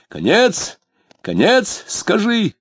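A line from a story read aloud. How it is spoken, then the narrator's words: Shouted. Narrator (Russian): закричал он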